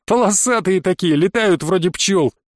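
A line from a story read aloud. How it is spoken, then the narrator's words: Laughing. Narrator (Russian): засмеялся Колян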